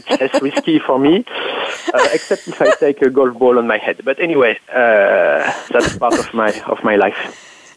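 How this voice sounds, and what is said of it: Lovely foreign accent in English. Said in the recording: “accent is lovely... A, a, wonderful way of forming your words... it's just my accent”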